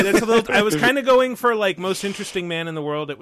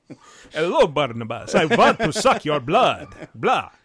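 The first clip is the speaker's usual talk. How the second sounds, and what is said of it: Campy Dracula vampire accent. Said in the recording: “You went a little too Dracula ... It was more Dracula. ... Like Adam Sandler's Dracula from Hotel Transylvania.”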